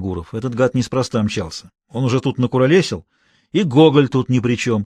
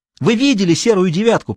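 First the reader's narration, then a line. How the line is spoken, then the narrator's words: Near-hysterical shout. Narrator (Russian): почти истерически закричал лейтенант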